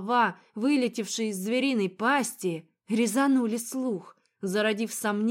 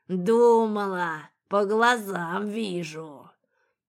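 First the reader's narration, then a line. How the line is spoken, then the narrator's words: Beast's hoarse laughter. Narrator (Russian): Зашелся хриплым смехом зверь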